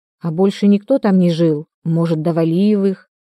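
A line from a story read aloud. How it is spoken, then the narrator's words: Glum question. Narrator (Russian): уныло спросила Магда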